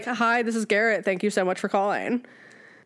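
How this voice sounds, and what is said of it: Put-on breathy customer service phone voice. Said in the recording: “It's your customer service voice. Like, I say mine's like Paris Hilton. ... I do have a different voice. ... It's very Paris. ... it's honestly kind of call sex”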